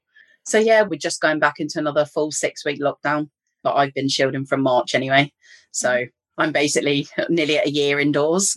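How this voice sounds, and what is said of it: English accent. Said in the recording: “you can probably tell from my accent, I'm from England”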